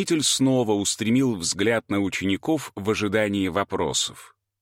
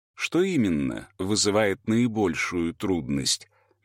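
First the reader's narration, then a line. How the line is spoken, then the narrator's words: Gentle sage asking. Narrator (Russian): мягко спросил мудрец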